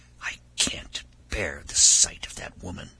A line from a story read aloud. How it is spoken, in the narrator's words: the princess hide something as she whispered